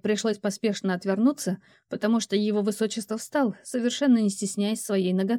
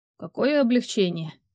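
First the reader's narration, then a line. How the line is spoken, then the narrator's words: Sarcastic reply. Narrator (Russian): язвительно ответил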